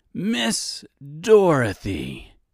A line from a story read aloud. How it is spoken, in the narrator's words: Reginald exclaimed